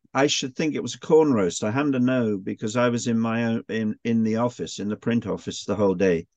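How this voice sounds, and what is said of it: Distinctive accent. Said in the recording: “your fantastic accent”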